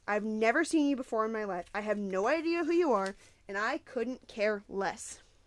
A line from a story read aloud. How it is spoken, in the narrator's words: he spat